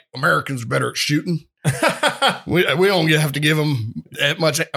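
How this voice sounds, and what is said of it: Put-on Texan accent. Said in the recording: “why am I using like a Texan accent”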